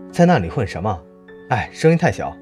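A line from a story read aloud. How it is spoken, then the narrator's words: Shouting in unison. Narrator (Chinese): 我们像往常一样齐声大喊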